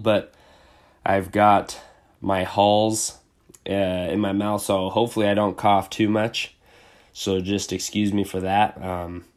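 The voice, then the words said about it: Slightly congested, sick-sounding voice. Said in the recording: “I've got a little bit of a cold ... just a little cold I'm dealing with”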